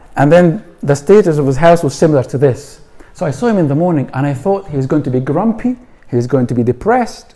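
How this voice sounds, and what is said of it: Scottish accent. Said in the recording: “in Scotland, as you might have figured out where the accent is from”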